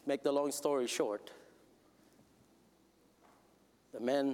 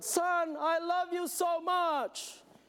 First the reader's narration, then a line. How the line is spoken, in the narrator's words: he just yelled